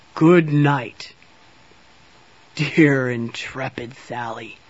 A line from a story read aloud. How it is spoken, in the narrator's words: Santa said with a chuckle